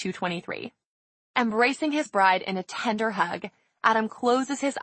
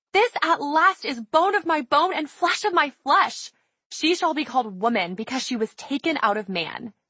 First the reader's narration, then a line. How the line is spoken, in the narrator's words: he excitedly exclaims